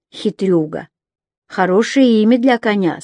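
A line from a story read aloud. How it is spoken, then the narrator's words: Plain. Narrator (Russian): сказала она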